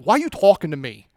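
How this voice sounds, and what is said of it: Put-on New Jersey accent. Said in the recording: “talking back to Jesus in like this New Jersey accent”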